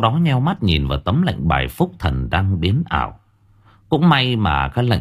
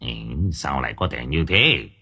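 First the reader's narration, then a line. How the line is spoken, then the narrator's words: Mutter. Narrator (Vietnamese): Ông Long Béo lẩm bẩm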